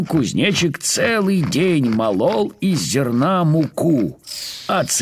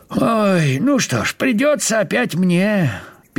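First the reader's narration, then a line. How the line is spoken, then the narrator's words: Sad. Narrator (Russian): печально сказал он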